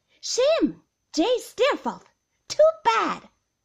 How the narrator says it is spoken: somebody cried out

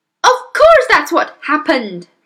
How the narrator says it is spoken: the mother cried

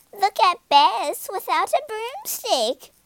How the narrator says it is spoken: they said, and cackled with laughter

